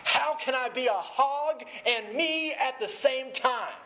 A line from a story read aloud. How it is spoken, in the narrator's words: she's screaming